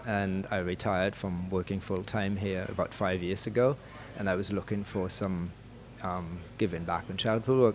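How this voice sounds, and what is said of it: German accent, not Caribbean. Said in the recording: “my accent isn't particularly based on the Caribbean ... You're originally from Germany.”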